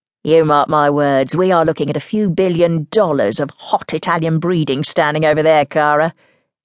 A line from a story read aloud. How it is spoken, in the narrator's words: Ella mocked dryly